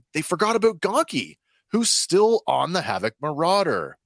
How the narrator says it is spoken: Omega jumps up from her seat, exclaiming

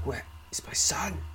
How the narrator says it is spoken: gasps

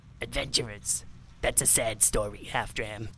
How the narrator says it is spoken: he sneered

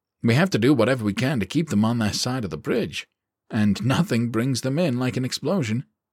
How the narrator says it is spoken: he said

